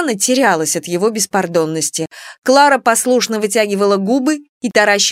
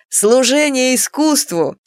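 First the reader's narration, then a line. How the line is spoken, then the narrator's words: Laughing. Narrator (Russian): смеялся Митяй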